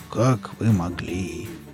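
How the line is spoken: Muttering. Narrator (Russian): пробормотал Велес

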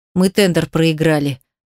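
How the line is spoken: Angry old man. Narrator (Russian): произносит дед со злостью

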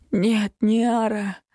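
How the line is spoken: Hoarse wheeze. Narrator (Russian): прохрипел отец

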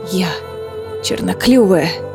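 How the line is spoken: Hoarse, spitting blood. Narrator (Russian): хрипло возразила Мануна, сплевывая кровь

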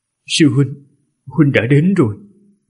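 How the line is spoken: Deeply moved trembling voice. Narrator (Vietnamese): Ninh Khuyết cảm động vô cùng, giọng cung run rẩy

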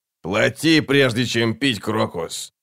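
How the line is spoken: Grumbled. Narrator (Russian): проворчал нахал

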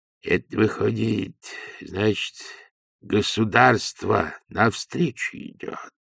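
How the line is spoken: Gloomy. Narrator (Russian): сказал он мрачно

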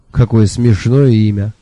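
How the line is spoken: Loud laughter. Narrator (Russian): расхохотался Шурф

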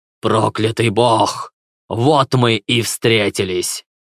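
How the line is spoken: Growling. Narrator (Russian): прорычал он

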